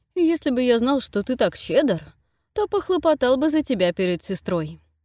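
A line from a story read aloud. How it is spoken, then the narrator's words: Laughing. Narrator (Russian): рассмеялся Нейт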